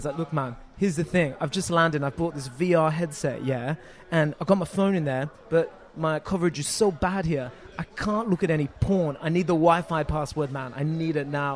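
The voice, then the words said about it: Put-on British accent. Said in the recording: “Excuse me, any of our UK listeners, for the accent I'm about to do.”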